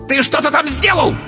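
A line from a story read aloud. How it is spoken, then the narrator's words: Shrieking. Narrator (Russian): взвизгнул кентавр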